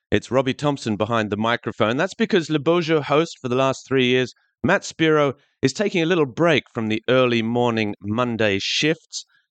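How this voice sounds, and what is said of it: Gentle Australian accent. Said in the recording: “the gentle Aussie twang”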